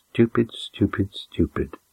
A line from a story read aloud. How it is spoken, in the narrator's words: Maessa mutter